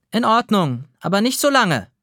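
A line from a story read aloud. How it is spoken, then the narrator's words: Mother calling back. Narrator (German): ruft Mama zurück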